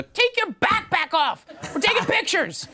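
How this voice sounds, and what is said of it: Imitates another person's voice. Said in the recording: “your Hillary Clinton impersonation? ... Spot on.”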